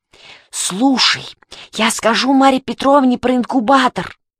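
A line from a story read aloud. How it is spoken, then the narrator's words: Hiss. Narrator (Russian): Мишка прошипел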